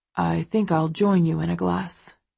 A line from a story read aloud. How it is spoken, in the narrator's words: he says, sighing